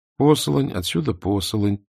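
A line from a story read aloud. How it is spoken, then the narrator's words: Muttered. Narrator (Russian): пробормотала Мона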